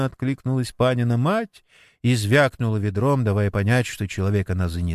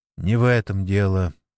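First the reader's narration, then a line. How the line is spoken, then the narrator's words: Sighing. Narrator (Russian): вздохнул Сергей Митрофанович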